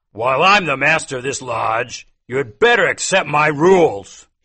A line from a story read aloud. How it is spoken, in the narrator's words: he shouted